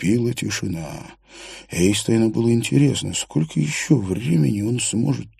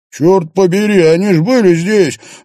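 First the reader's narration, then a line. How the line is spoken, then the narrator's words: Yelling over noise. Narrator (Russian): заорал он, перекрикивая музыку и гул голосов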